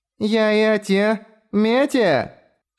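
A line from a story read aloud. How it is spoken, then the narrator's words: Loud declaration. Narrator (Russian): громко заявила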